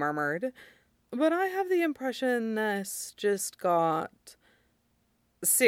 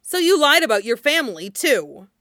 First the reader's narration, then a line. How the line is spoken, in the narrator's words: Jet spat